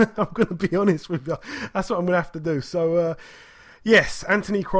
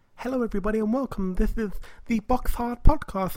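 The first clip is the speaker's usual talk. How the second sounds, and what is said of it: Imitates another person's voice. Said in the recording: “in a Chris Eubank senior accent ... in Chris Eubank senior's accent”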